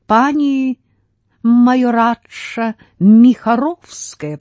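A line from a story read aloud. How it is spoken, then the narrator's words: Drawn out, savoring, mother. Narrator (Russian): протянула мать, любуясь звучанием этих слов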